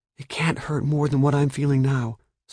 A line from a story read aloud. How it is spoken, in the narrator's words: Sophie whispered